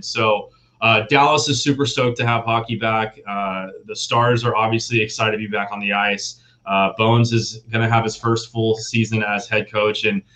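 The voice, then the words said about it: Excited, energetic voice. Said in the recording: “super excited. Obviously, you can hear it in my voice. That may be the coffee that I had this morning”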